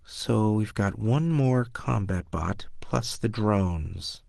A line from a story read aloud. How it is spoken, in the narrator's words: Wilkin muttered